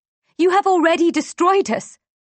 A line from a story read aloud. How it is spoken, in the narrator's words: shout